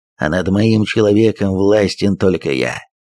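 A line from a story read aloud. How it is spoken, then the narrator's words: Grated through teeth. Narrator (Russian): проскрипел зубами дегенерат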